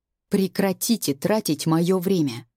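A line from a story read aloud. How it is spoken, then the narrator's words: Icy interruption. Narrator (Russian): Ледяным тоном перебивает его брюнет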